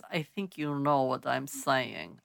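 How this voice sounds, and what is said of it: Put-on Russian accent. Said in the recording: “I can only do a Russian accent again. Apologies. Really sorry.”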